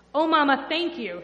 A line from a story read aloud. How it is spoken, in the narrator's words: she said